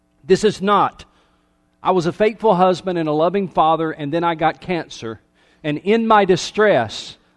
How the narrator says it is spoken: I cried out to the Lord

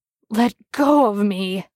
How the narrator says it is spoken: he gasped

